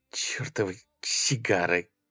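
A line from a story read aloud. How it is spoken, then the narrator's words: Muttered in silence. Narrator (Russian): пробормотала она в тишине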